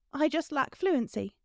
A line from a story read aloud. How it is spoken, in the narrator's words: she blurted